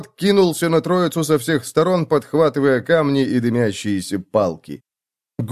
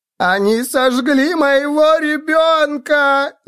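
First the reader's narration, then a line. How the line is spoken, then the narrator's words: Woman's wail. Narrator (Russian): завопила женщина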